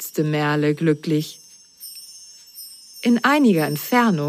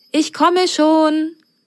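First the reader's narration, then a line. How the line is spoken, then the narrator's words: Friendly call, muffled. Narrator (German): rief eine freundliche Stimme hinter der Pforte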